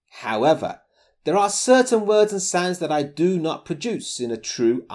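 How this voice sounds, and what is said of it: Near-RP British accent. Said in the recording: “I grew up speaking a Brummy accent ... Nowadays, my accent is closer to RP than my original Brummy”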